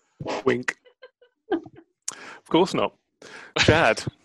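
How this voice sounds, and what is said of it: A poorly done put-on accent. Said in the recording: “That's such a bad accent.”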